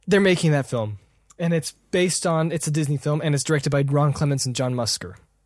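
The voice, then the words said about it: Strained, worn-out voice. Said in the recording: “My voice is just getting destroyed.”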